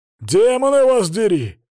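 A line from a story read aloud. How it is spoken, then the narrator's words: Barked shout. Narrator (Russian): рявкнул Свари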